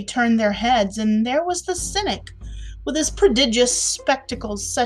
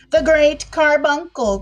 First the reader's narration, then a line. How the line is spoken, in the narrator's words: cried a peevish voice behind them